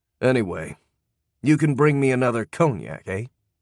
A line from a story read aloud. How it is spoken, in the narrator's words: growled